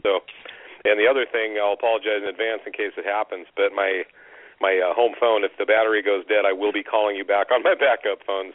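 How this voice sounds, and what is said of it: Slightly hoarse, husky voice. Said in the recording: “I'm just getting over a cold, and my voice isn't quite back yet.”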